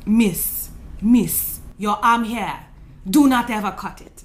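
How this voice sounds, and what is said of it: Put-on African accent. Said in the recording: “I'm going to do an African accent”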